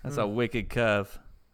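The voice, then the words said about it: Put-on Boston accent. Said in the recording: “Anytime somebody says wicked, I want them to say it in a Boston accent.”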